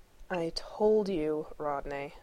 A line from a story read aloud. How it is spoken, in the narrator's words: Shepard drawled